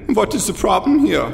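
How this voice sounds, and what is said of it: Exaggerated German accent in English. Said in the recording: “speaks English with this ridiculous German accent”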